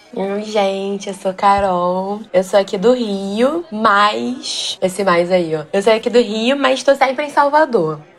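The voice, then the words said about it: Strong Carioca Brazilian Portuguese accent. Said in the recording (Portuguese): “sotaque super carioca”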